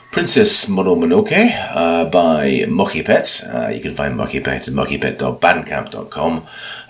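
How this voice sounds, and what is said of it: Croaky, hoarse voice. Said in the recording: “You can probably tell from my voice, I'm a bit croaky. I've had a terrible cold.”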